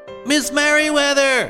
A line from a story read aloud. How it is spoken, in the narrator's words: he shouted